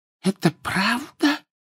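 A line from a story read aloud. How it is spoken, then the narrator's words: Whispering woman. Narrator (Russian): прошептала полная дама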